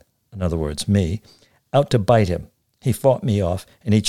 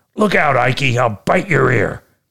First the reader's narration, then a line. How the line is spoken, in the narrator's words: I barked at him